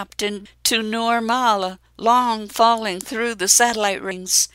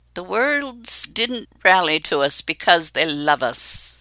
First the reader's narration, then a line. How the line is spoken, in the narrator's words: Farron snarls